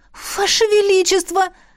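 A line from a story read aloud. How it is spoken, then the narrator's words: Exclaimed. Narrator (Russian): воскликнула я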